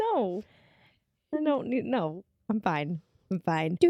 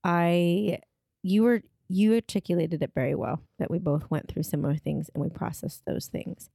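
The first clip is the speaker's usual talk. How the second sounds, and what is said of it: Serious, sad-sounding voice. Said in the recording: “You sound so sad. ... Are you okay? ... my serious voice.”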